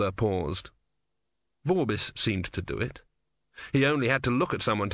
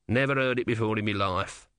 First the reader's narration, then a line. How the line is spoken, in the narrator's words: said the tortoise bitterly